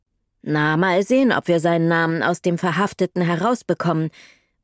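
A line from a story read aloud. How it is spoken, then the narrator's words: Unconvinced voice. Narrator (German): meinte Absmeier mit wenig überzeugter Stimme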